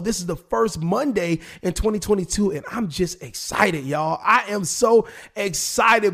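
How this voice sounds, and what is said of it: Slightly raspy voice. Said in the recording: “my voice is a little raspy today”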